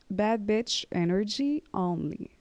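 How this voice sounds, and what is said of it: English with a French accent. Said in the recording (French): “J'ai dit un peu avec l'accent français, I'm sorry. Let me fix this.”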